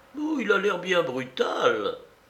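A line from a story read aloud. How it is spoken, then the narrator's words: Fragile figurines exclaiming together. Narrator (French): s'écrièrent les frêles porcelaines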